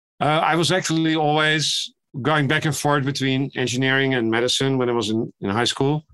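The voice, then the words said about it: European accent. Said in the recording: “as you can hear from my accent, I was trained in Europe”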